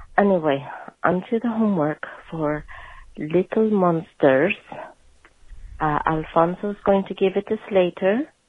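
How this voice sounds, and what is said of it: Raspy voice. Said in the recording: “my voice being a bit extra raspy”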